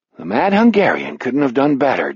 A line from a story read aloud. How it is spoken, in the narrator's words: Jack murmurs